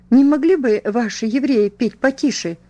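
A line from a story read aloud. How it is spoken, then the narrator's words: Indignant exclamation. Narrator (Russian): раздувая ноздри, воскликнула она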